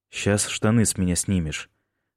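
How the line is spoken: Calm warning. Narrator (Russian): спокойно предупредил Майкл

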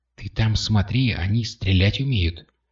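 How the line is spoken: Caring whisper. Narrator (Russian): заботливо, но очень несвоевременно прошептала Катя

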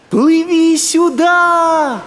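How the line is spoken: Shouting. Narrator (Russian): крикнул маячок

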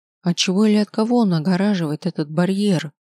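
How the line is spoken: Trembling, frightened question. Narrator (Russian): спросила я дрогнувшим голосом, чувствуя, как страх заполняет грудную клетку

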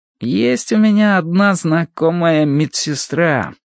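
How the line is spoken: Thoughtful drawl. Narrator (Russian): протянул он задумчиво

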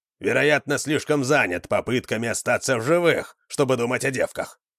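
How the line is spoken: Grumbling. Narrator (Russian): пробурчал Вандар

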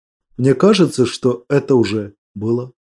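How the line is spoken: Quiet. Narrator (Russian): тихо сказал

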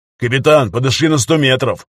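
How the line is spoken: Shout. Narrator (Russian): крикнул сержант Андрей Никитин

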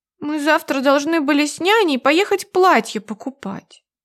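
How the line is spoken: Slightly sad. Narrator (Russian): чуть грустно отвечает Аня

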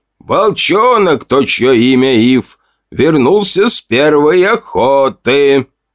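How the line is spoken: Booming. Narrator (Russian): прогремел он

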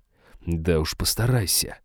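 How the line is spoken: Tense growl. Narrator (Russian): прорычал граф, напряженный, будто пружина

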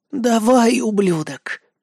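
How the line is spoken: Hoarse wheezing. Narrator (Russian): прохрипела Пак Сумин

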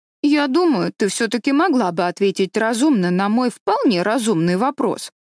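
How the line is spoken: Offended. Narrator (Russian): сказала обиженно Дэви

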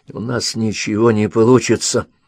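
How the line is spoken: Whisper. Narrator (Russian): прошептал Том

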